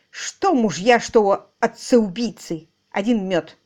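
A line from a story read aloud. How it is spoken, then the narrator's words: Hissing. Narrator (Russian): словно прошипела хозяйка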